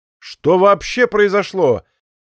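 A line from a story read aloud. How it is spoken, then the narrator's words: Shouted after someone. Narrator (Russian): крикнул Егор в спину удаляющемуся коллеге-криминалисту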